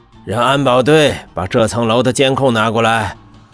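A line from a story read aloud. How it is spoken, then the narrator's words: Stern raised voice. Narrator (Chinese): 温博远沉着脸高声道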